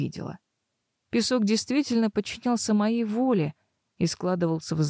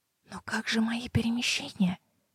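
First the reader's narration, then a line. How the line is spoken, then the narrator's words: Trembling whisper. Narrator (Russian): подрагивающим шепотом спросила я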